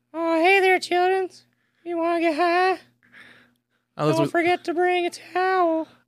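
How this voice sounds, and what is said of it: Impression of Towelie from South Park. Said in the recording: “Towley from South Park”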